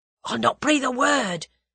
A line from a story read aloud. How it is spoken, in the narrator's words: protested Albert eagerly